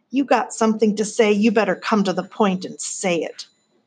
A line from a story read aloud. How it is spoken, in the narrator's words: Tuck added roughly